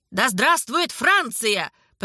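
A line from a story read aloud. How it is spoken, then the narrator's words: Shouted. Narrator (Russian): прокричал Александр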